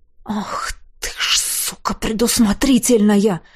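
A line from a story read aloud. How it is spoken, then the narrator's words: Breathless exhale. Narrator (Russian): выдохнул я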